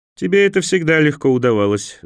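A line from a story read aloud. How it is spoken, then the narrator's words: Laughing. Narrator (Russian): засмеялся эфиоп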